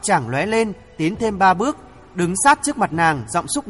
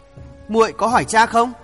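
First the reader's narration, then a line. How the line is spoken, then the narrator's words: Trembling voice. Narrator (Vietnamese): chàng lặng người, hiểu rõ nỗi khổ của người yêu không ít, cất giọng run rẩy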